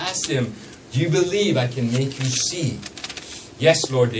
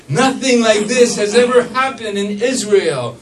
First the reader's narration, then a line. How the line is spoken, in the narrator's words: they exclaimed